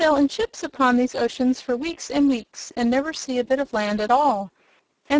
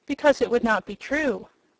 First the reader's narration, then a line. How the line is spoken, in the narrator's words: said Dorothy gravely